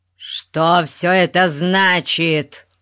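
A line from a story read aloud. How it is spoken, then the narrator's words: Roar. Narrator (Russian): Взревел он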